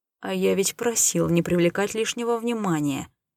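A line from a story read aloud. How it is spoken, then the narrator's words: Displeased mutter. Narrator (Russian): недовольно проворчал себе под нос Рей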